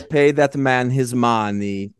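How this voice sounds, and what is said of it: Put-on Russian accent. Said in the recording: “He plays a Russian. ... that sounds like his Pascal Sauvage”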